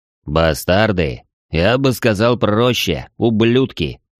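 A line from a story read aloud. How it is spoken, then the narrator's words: Deep bass voice. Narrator (Russian): пробасил Трог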